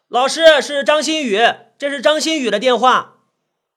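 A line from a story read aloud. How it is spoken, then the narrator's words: Shouting. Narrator (Chinese): 台下那个同学喊道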